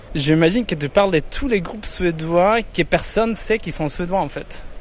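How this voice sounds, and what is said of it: Swedish accent speaking French. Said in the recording (French): “je suis suédois ... Avec son plus bel accent”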